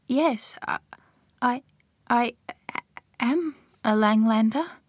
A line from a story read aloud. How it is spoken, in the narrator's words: she stammered